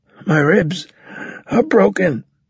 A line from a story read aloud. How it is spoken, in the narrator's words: Carlos said, wheezing